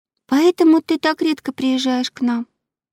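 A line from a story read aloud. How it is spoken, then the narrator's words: Sad question. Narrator (Russian): грустно спросила она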